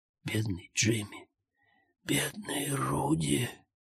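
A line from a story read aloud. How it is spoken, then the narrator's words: Tearful whisper. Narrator (Russian): прошептал Джозеф со слезами на глазах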